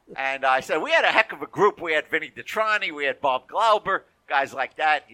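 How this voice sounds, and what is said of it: Brooklyn accent. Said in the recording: “this Brooklyn accent?”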